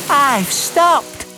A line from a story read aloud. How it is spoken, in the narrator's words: Percy puffed happily